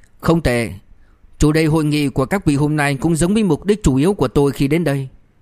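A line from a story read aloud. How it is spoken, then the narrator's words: Loud laughter. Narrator (Vietnamese): lập tức cười lớn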